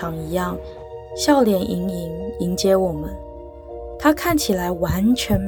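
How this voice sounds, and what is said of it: Usual voice. Nothing is said of it.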